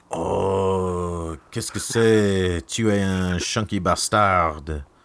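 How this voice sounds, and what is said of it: Put-on French accent. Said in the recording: “say "chunky bastard" in a French accent?”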